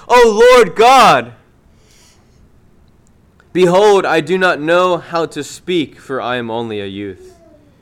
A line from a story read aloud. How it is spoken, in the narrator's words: Jeremiah, when he was called to preach, cried